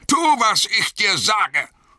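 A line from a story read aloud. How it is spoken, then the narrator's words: Snapping harshly. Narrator (German): schnauzte der Zauberer ihn an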